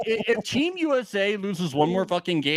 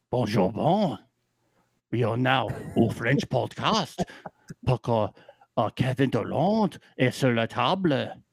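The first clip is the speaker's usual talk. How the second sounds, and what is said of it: Put-on cartoonish French accent. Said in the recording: “my French accent ... Yours sounds very Pepe Le Pew ... it's very Pepe Le Pew.”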